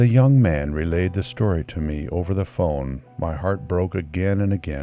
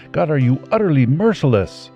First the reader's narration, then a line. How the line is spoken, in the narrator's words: I cried